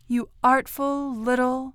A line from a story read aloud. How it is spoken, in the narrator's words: said to it tenderly